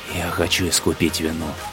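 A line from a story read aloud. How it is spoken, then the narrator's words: Whisper. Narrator (Russian): прошептал Шаор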